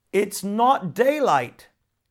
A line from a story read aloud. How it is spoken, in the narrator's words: shouted the water devil